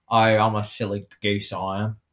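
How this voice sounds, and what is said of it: Good put-on Australian accent. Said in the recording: “your Australian accent is, like, really good.”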